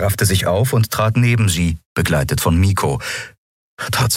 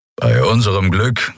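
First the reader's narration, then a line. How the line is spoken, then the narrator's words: Growled from behind. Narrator (German): knurrte Keru hinter ihnen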